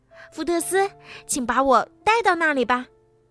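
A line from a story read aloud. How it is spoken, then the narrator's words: Screaming. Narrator (Chinese): 布朗提尖叫着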